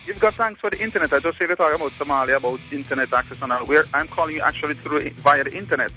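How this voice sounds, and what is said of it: Authentic Jamaican accent. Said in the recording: “you're our first caller ever from Jamaica ... Love the accent. ... That's authentic accent.”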